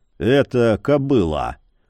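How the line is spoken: Meek grumble. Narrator (Russian): буркнул Яромир, безропотно подчиняясь приказу

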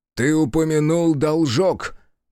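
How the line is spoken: Loud. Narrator (Russian): громко сказала Аяшики

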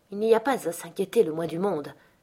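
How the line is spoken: Murmured. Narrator (French): murmurai-je

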